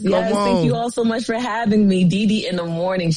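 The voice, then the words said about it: New York / New Jersey accent. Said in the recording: “I love that accent, though. Y'all hear her accent? That's that real New York accent ... That's that Jersey.”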